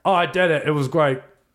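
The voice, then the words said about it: Attempted British accent. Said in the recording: “That was trying to do a British accent, not Australian.”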